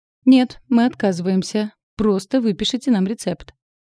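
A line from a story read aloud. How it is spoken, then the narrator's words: Dry. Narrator (Russian): сухо сказал он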